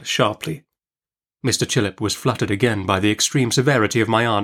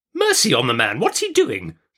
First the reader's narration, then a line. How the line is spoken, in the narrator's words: cried my aunt impatiently